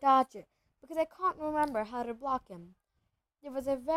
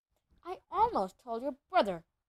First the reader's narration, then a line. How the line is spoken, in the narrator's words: Hermione snapped